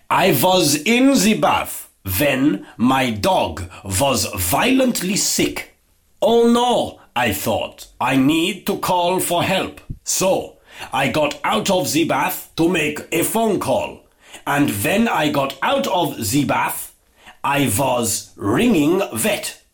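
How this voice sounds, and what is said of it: Put-on accent. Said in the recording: “I have to put on an accent. ... So I had to put on an accent there, obviously, to make the joke work”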